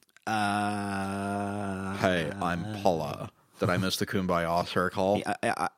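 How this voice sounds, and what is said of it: Imitates the character Daria's voice. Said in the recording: “I don't know what accent that is, but I kind of dig it... It sounds like you're doing a Daria impression.”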